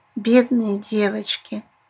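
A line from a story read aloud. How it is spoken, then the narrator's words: Pitying sigh. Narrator (Russian): с жалостью вздохнула Эдзулидзе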